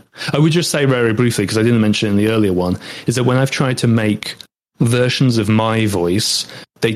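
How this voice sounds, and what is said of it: British English accent. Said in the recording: “obviously I'm British and that's my accent”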